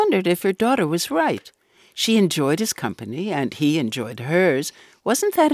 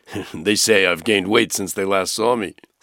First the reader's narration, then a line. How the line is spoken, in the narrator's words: explained, and then added with a chuckle